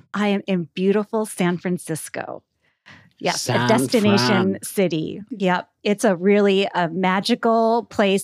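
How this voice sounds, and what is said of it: American accent. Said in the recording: “The listeners will straight away recognize that accent being American.”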